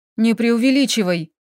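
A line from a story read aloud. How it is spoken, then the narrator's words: Grumbling mutter. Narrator (Russian): буркнула Лилька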